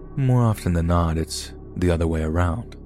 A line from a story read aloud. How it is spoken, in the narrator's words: in a deadpan voice, he said